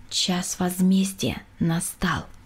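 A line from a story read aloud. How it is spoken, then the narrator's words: Quiet. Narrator (Russian): тихо сказала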